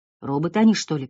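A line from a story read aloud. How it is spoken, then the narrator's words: Muttering. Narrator (Russian): пробормотал кто-то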